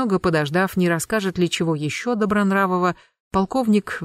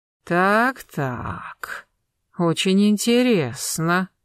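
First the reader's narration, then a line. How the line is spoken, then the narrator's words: Drawling. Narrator (Russian): протянул полковник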